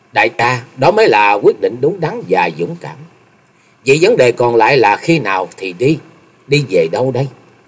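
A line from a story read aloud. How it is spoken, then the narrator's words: Smiling speech. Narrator (Vietnamese): Chung Nhật Tự mỉm cười nói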